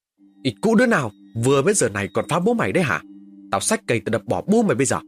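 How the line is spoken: Loud angry shout. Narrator (Vietnamese): Tôi quát lớn

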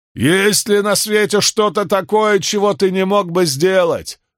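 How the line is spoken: Shouted. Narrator (Russian): выкрикнул кто-то

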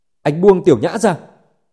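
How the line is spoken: Angry yell. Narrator (Vietnamese): tức giận gào với Dương Chấn

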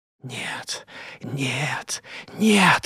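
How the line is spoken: Barely audible whisper. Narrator (Russian): шептал он, еле слышным голосом

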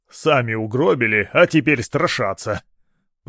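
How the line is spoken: Grumbling. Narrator (Russian): проворчал он

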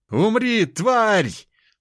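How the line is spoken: Man shouting. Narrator (Russian): прокричал мужчина

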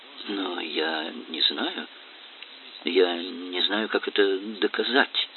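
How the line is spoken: Mumbled. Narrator (Russian): пробормотала

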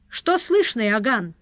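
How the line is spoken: High, pleasant voice. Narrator (Russian): произнес он высоким и приятным голосом

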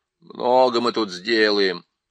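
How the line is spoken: Grumbling. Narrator (Russian): проворчал Эдмунд

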